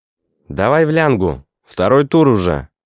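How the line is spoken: Small boy shouting. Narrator (Russian): крикнул ему маленький коротконогий Мишка

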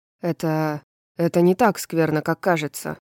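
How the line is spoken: Grumbling. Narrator (Russian): пробурчал Итан

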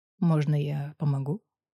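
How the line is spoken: Quiet question. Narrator (Russian): тихо спросил

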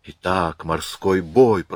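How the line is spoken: Whispered to herself. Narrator (Russian): прошептала Марианна скорее себе, чем Жолевалю

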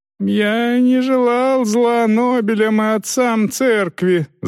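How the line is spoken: Whimpering. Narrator (Russian): захныкал Зеппельд

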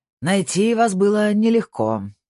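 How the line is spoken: Growl. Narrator (Russian): прорычал Снейдер

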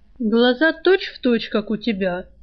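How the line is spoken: Snide. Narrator (Russian): Жар ехидно

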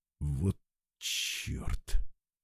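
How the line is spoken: Strained, forced out. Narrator (Russian): выдавил Олег

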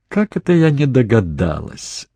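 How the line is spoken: Laughing. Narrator (Russian): засмеялась Кейт

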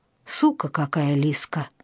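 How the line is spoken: Anguished, dreading mutter. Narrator (Russian): с тоской пробормотал Геша, чувствуя, что надвигается страшное

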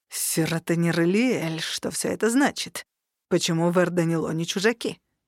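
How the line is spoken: Hissing. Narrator (Russian): зашипел высокий эльф

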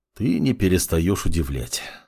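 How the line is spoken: Sighing. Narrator (Russian): вздохнул маг

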